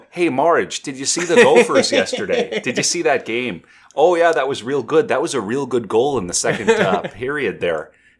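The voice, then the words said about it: Put-on Minnesota accent. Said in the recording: “that's how I always go when I want to do a Minnesota accent ... and then suddenly you're into the accent”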